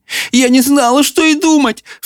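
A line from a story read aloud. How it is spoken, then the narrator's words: Sobbing. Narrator (Russian): всхлипывала она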